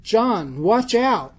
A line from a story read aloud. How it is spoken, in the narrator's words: He shouted